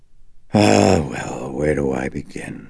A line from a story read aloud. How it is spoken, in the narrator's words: He breathed out reluctantly